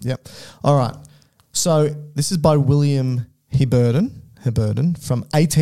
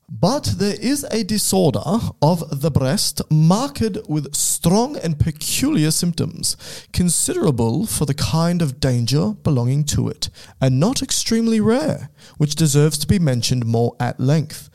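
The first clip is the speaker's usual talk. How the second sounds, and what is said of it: Put-on British accent. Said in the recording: “I'll do a British accent.”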